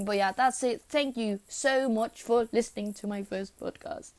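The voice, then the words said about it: Unusual, hard-to-place accent. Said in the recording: “I know my accent is really weird ... I don't know where my accent is from”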